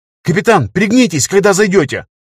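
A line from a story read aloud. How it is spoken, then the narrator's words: Shouted. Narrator (Russian): крикнула Анна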